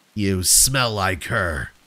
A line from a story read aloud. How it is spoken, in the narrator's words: a low voice rasped